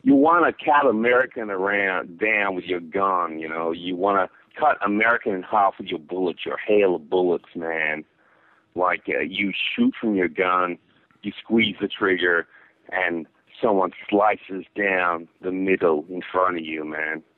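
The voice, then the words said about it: Attempts an American accent. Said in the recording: “Maybe I'm not accustomed to your accent. ... I'll try to make it more American for you.”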